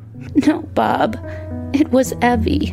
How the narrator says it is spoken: she sobbed

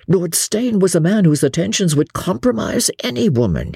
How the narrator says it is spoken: he begged

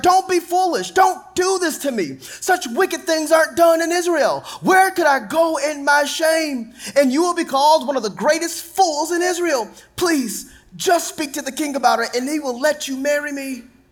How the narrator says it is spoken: cried

